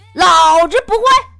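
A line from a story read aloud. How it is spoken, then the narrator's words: Arrogant shout. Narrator (Chinese): 他嚣张的喊了一句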